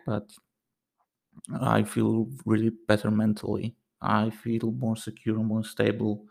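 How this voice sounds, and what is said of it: Slightly hoarse, worn-out voice. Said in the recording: “Maybe you can hear it from my voice, because my voice is maybe a little bit shagged”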